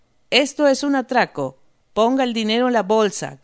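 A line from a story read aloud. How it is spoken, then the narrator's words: Shouted. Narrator (Spanish): gritó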